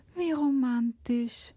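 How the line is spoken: Sigh. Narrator (German): seufzte Hanna

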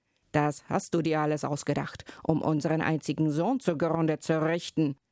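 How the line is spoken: Exclaiming. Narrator (German): rief er aus

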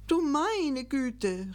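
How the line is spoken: Called out. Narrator (German): rief Gickelgei

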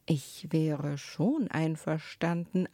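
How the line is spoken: Plain. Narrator (German): antwortete sie

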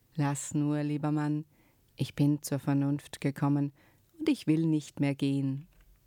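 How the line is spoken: Suddenly calm. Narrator (German): war sie plötzlich ganz ruhig und sagte

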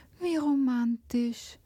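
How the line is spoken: Sighing. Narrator (German): seufzte Hanna

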